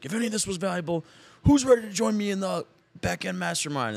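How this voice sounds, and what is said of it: Imitates another person's voice. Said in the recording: “was that like a Tony Robbins impersonation?”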